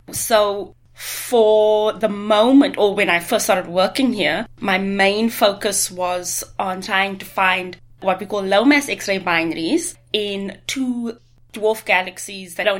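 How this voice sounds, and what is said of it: South African or Australian accent. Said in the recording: “if you've not picked up from our accent ... we're both from uh, the southern hemisphere from south africa and australia”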